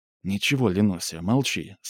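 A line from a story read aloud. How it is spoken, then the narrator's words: Tender. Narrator (Russian): сказал ласково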